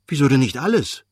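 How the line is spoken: Calling out. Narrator (German): rief Lewin

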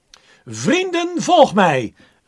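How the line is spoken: Calling out. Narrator (Dutch): riep René Grotebol

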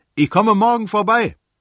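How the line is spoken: Calling after someone. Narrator (German): rief Stepan Arkadjewitsch ihm nach

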